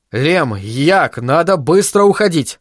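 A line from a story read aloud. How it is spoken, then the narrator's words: Agitated. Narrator (Russian): сказал он взволнованно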